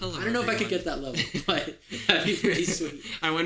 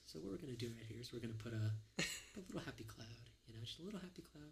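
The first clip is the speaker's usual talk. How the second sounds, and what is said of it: Relaxed Bob Ross impression. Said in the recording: “do the Bob Ross voice ... You have like the relaxing tone of his voice down.”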